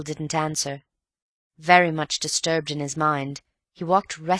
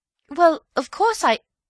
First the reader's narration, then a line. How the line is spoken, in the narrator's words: began Bill, stammering, and then ended lamely